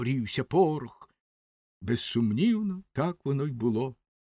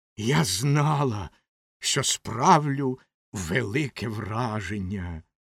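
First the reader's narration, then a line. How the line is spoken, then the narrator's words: Hiss. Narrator (Ukrainian): прошипіла Ракета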